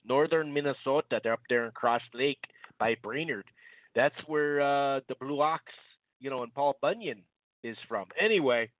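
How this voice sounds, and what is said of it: Thick northern Minnesota accent. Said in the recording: “a little up north Minnesota thick-ass accent”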